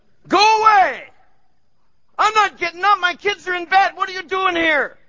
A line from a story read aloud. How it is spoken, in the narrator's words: he's yelling down the hall